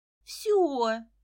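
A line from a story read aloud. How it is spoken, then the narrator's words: Pleading. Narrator (Russian): взмолилась Лиза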